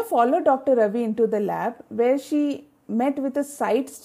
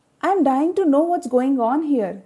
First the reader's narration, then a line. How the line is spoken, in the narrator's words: Ria exclaimed curiously